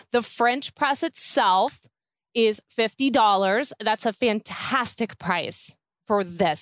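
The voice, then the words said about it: Excited, enthusiastic voice. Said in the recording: “if you can't hear the excitement in my voice”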